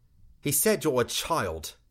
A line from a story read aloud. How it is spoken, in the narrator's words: Lore answered